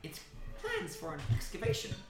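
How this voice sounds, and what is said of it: Female character voice with put-on accent. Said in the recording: “I'm literally doing your accent. This is just a female version of Haggerty.”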